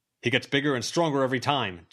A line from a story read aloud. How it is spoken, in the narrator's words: John called out